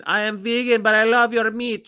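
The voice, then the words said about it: Loud put-on Panamanian accent. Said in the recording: “She talk like this. She's very loud. She has Panamanian accent.”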